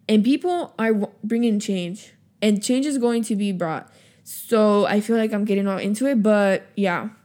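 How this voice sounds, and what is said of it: Breathless, out of breath speech. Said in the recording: “Oh my God, now I'm out of breath”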